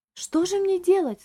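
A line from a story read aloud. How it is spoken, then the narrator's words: Agitated exclaiming. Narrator (Russian): взволнованно воскликнула дама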